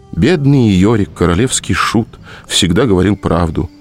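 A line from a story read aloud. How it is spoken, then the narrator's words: Sighing. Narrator (Russian): вздохнул Митя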